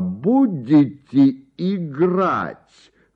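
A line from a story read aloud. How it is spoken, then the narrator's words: Loud shout. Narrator (Russian): громким голосом крикнул граф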